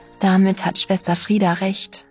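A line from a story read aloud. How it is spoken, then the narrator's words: Very gentle. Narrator (German): sagte ich jetzt sehr sanft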